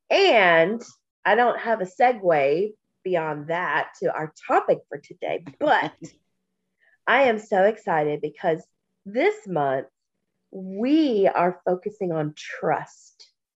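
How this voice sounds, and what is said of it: Congested, stuffy croaky voice. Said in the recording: “I'm snotty and I'm stopped up ... my sinuses and my allergies are out of control ... I sound like a frog going through puberty”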